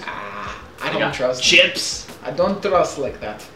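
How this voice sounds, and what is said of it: Put-on Estonian accent. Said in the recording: “In my best Estonian accent.”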